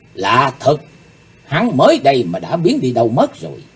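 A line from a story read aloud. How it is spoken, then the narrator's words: Muttering to herself. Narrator (Vietnamese): Cô ả lẩm bẩm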